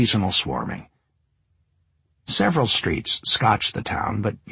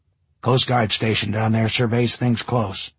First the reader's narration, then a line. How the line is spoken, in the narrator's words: he said